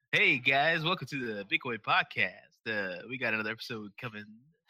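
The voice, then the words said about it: Exaggerated podcast radio-host voice. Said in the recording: “I want to do my normal guy podcast ... the radio voice? ... Everybody does a weird radio voice.”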